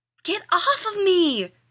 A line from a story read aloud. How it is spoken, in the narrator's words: Rodney yelled